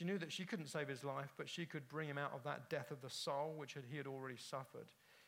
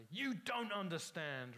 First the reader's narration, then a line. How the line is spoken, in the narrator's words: roared the captive